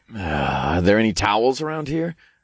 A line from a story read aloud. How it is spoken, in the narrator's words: I chuckled